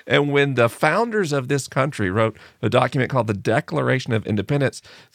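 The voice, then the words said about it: American accent. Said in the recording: “I live in the United States, probably obvious from my accent.”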